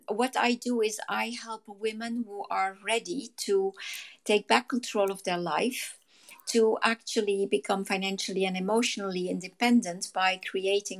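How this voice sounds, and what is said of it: Hoarse, fading voice. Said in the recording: “I'm losing my voice all of a sudden”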